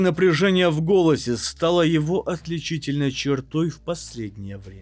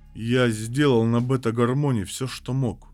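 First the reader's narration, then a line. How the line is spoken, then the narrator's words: Said sadly. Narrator (Russian): печально произнес Сангвиний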